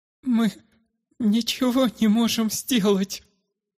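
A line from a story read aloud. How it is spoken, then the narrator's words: Grieving mother's trembling voice. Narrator (Russian): дрожащим голосом объявила мать, держа на руках умирающего сына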